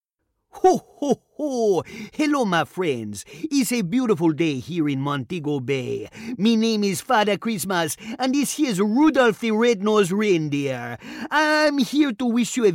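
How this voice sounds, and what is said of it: Jolly Santa character, Jamaican accent. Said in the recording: “a cross between Father Christmas and the Easter Bunny and has to have a Jamaican accent ... a mixture of these two in a Jamaican accent”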